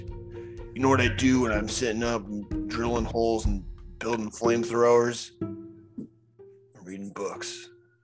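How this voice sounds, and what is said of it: Impression of Elon Musk. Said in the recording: “Pretty good impersonation of Elon Musk”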